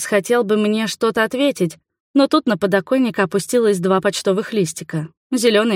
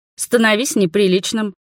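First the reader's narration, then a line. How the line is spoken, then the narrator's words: Snorting. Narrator (Russian): хмыкнула я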